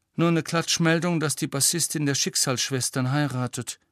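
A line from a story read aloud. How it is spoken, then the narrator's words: Sighing. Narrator (German): seufzte sie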